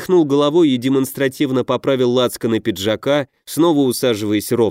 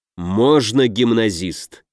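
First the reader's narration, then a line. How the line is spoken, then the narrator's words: Unkind, through teeth. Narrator (Russian): недобро процедил Дельвик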